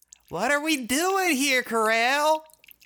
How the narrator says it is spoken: Gemini yelled, annoyed

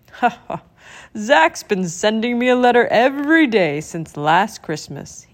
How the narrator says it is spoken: said, chuckling

